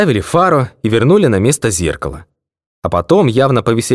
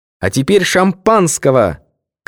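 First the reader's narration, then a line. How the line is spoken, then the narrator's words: Shouted. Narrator (Russian): крикнула она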